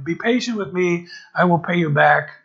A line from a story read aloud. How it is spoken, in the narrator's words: his fellow servant fell to his knees and begged him